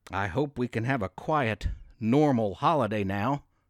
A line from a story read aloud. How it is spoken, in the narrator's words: Tracy said